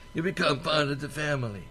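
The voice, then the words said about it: Put-on Sicilian accent. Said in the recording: “I'll use my Sicilian accent.”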